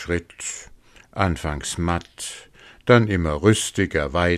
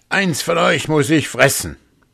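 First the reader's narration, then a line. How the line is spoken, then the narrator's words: Wolf calling out. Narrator (German): Der Wolf rief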